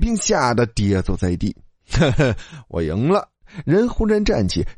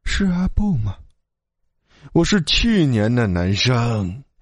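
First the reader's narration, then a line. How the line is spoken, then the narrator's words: Trembling voice. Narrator (Chinese): 吕冰颤声道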